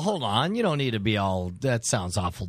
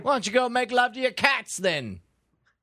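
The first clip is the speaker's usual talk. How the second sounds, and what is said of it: Mocking fake British accent. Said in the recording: “use the British accent to make fun of the British people ... I'm mocking their accent ... That was a Welsh accent ... That's your mocking fake accent”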